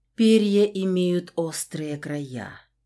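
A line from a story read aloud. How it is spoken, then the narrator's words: Quiet spouse's comment. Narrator (Russian): тихо прозвучал комментарий супруга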